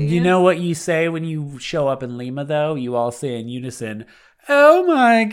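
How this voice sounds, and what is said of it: Usual voice. Nothing is said of it.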